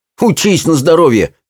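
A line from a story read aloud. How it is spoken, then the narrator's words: Snorted. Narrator (Russian): фыркнул Питер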